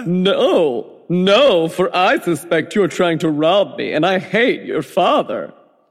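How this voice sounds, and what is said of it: Weird put-on character voice. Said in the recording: “Why are you doing that weird voice?”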